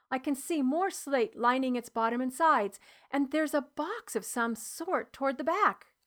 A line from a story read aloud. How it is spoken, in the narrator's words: I said, excitedly